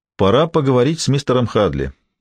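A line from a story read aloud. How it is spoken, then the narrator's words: Plain. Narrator (Russian): сказал Гамаш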